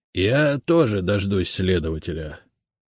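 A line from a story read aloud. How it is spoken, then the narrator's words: Gloomy. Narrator (Russian): мрачно кивнул Игорь Владимирович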